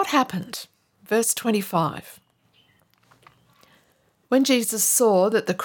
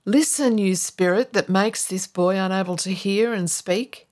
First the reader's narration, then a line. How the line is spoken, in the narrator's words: he said